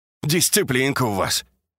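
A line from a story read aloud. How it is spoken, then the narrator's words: Feigned carefree snort. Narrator (Russian): с показной беспечностью хмыкнул Яковлев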